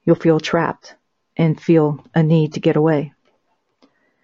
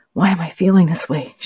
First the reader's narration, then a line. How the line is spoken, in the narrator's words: She whispered